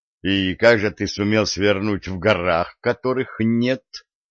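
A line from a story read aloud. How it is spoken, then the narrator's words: Gloomy young man asking. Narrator (Russian): мрачно спросил юноша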